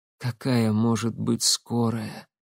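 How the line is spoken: Strained whisper, then coughing. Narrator (Russian): с трудом прошептала и закашлялась

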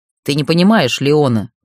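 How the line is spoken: Growling undertone. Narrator (Russian): в его голос ворвались рычащие нотки

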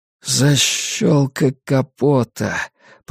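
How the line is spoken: Muttering. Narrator (Russian): пробормотал Стью

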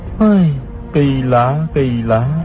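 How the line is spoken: Sighing. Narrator (Vietnamese): Hư Trúc thở dài nói

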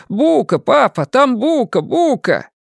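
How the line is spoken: Wailing scream. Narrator (Russian): Ширл она как завоет, как закричит

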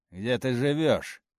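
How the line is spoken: Rough question. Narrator (Russian): спросил он грубо

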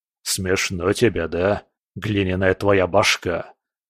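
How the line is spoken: Muttered. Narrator (Russian): пробормотал скала

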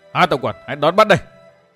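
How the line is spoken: Raised voice. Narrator (Vietnamese): Độc Cô Thanh Tùng đắc cao giọng tiếp nói

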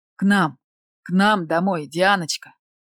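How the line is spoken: Groaning, spiteful through teeth. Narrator (Russian): Застонав от бессилия, злобно процедила

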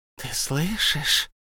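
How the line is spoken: Polite hiss. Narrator (Russian): прошипел Голлум и сделался очень вежливым

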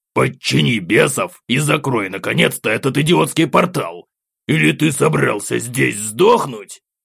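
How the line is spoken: Nasty old voice protesting. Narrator (Russian): В который раз взбунтовался противным старческим голосом в моей голове Акакий

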